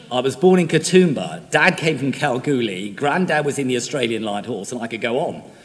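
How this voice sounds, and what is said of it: English-sounding accent. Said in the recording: “You all probably think that by my accent, I'm English... I apologise for my accent. Unless, of course, you're English and enjoying it.”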